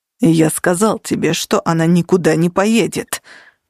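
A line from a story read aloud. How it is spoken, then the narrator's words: Growl. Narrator (Russian): прорычал Нигер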